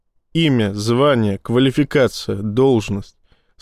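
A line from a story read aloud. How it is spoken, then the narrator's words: Flat toneless. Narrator (Russian): сказал капитан бесцветным голосом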